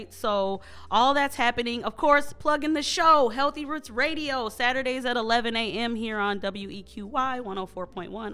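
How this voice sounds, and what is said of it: Exaggerated radio announcer voice. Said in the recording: “I sound like a radio person ... I was going way too hard right there ... Trying to get my radio voice on”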